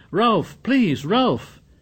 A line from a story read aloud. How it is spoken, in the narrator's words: Piggy shouted